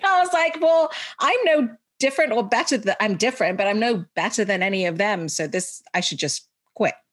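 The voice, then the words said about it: English-schooled accent. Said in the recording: “went to an English school, which is why I have this accent”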